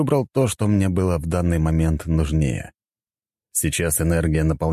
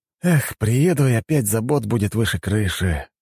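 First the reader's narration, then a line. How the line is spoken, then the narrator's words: Sighing. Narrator (Russian): вздохнул я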